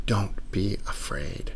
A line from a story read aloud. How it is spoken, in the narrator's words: whispering